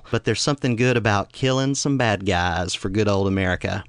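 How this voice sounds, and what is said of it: Southeastern US accent. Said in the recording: “my not-so-subtle accent, I'm from a part of the United States that's a little bit southeastern”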